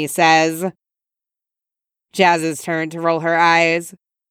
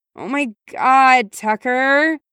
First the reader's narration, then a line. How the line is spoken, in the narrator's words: Jazz groans